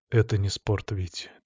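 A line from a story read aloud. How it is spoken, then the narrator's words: Quiet. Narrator (Russian): тихо сказал я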